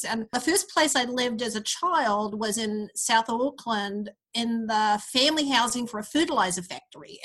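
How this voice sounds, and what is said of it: Mid-Pacific accent. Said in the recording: “my somewhat strange mid-Pacific accent”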